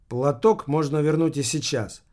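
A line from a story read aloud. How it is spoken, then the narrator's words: Calm speech. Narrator (Russian): спокойно сказала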